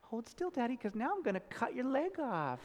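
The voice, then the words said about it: Creepy little girl voice. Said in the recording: “in this creepy four-year-old girl voice”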